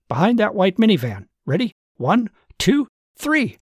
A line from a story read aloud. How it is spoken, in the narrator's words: he shouted to Susan